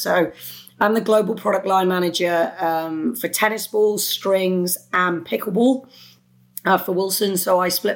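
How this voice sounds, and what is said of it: British Welsh accent. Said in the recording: “You're gonna tell that I have this British twang. So I'm from the UK. I'm from a small country called Wales.”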